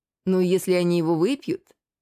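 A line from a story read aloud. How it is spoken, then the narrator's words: Purring tone. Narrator (Russian): Продолжала она тем же мурлыкающим тоном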